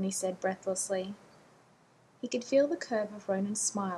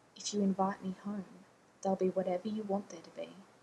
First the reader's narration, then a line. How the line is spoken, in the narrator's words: Ronan murmured in his ear